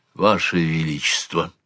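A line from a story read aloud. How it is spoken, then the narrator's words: Whisper. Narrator (Russian): зашептал Глэрд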